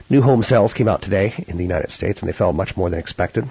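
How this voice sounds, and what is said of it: Fried, strained hoarse voice. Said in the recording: “You can tell my voice is a little bit fried these days. So obviously I've been doing a little bit too much talking.”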